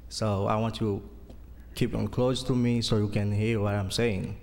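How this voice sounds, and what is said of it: Haitian accent. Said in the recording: “my accent because I'm from Haiti”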